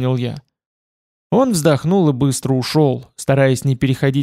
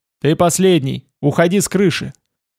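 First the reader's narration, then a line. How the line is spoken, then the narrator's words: Shouted back. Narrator (Russian): Он крикнул в ответ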